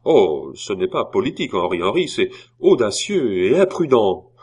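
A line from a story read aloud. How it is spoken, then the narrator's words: Exclaimed. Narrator (French): Tout à coup, Chicot s'écria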